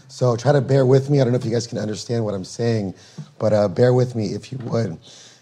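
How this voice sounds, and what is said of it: Strained, fading voice. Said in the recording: “apologize for my voice. I am losing my voice”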